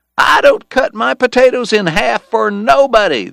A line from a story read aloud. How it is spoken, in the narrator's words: the crowd shouted